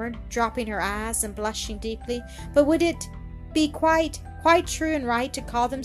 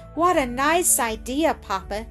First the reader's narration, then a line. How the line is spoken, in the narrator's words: she exclaimed with a low, musical laugh, her face growing bright and glad